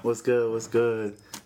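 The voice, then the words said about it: Smooth R&B crooner voice. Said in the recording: “your R&B voice ... his Quiet Storm voice.”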